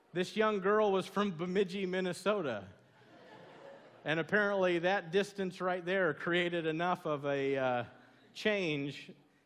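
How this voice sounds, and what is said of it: Southern American accent. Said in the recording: “you have the coolest Southern accent.”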